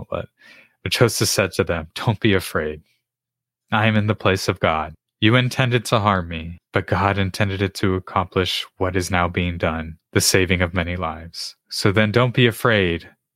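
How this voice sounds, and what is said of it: Emotional, choked-up reading voice. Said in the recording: “I get a little emotional”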